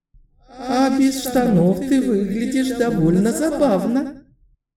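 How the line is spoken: Giggling she-dragon. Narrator (Russian): хихикнула дракониха

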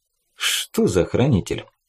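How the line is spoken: Insinuating question. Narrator (Russian): спросил Фаза вкрадчиво

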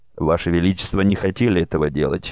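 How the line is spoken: Quick reply. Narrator (Russian): быстро откликнулся Дарю

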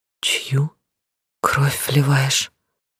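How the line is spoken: Very quiet, through injured lips. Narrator (Russian): спросила очень тихо, едва двигая разбитыми, изорванными зверем губами

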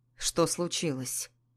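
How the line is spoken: Quiet muffled question. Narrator (Russian): Спросил он тихо, и его голос прозвучал глухо из-за шума фена

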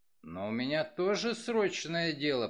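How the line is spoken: Grumbled. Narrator (Russian): проворчал он

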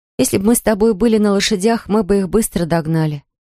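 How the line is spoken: Sighing. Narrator (Russian): вздохнула Маран

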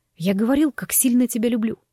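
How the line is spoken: Hoarse. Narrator (Russian): прохрипел он

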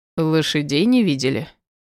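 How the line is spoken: Snorting, man. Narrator (Russian): хмыкнул мужчина

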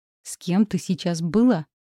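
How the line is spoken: Growling man. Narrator (Russian): Мой жених рычал, а не говорил

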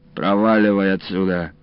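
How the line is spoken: Snapped. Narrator (Russian): огрызнулся Илларион

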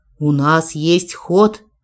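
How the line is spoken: Maid's wry snort. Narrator (Russian): хмыкнула горничная

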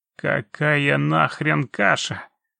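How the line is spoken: Angry yelling. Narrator (Russian): зло проорал тот, что держал Муриса

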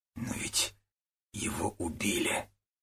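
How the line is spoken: Spoken quietly. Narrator (Russian): тихо проговорил Водорезов

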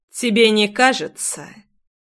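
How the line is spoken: Cold, smiling. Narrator (Russian): Холодно улыбнулся

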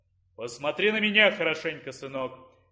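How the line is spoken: Deep booming voice. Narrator (Russian): прогудел низкий голос

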